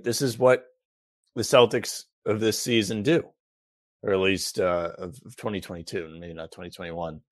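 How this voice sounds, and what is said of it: Strained, failing voice. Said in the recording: “I don't know where my voice is going. ... Is it going to blow up on me?”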